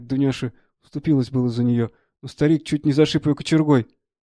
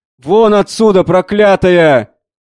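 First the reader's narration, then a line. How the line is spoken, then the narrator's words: Old man shouting. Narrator (Russian): кричал старик и ничего не слушал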